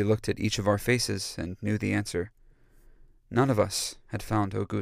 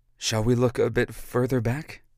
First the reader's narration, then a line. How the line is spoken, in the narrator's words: asked, kindly